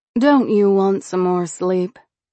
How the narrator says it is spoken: she asked flatly

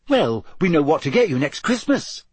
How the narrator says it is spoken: said Hermione brightly

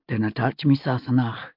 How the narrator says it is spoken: he said, just as softly

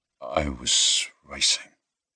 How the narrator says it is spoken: he said quietly

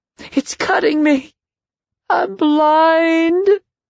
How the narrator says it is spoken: Then she gasped for air and screamed again, this time crying

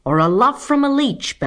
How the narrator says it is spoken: bellowed the man

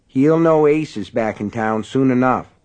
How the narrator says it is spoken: he said

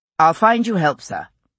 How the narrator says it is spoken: William said firmly

